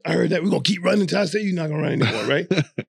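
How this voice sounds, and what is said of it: Raspy imitated coach voice. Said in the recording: “Fang had that raspy voice”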